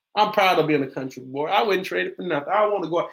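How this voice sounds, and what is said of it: Southern US country twang. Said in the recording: “y'all hear my country twang”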